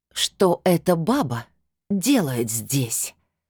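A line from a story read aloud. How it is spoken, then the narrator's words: Hissing woman. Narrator (Russian): прошипела блондинка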